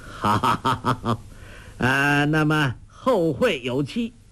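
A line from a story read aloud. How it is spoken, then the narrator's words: Laughing. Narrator (Chinese): 欧阳锋笑道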